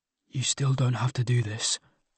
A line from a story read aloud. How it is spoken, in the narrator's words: whispered